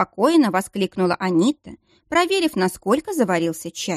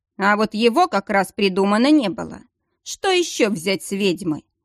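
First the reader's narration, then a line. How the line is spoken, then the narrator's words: Mildly annoyed grumble. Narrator (Russian): проворчал с легкой досадой боевик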